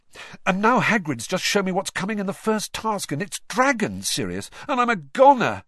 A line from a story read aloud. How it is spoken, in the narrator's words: he finished desperately